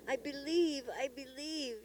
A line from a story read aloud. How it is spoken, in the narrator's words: sobbed